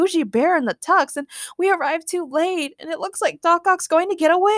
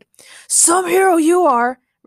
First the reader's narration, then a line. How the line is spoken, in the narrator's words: Ray shouted again